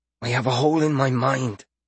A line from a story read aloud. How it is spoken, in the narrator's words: he mumbled